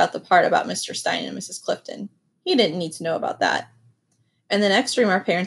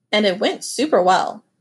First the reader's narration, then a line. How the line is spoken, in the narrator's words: said cheerfully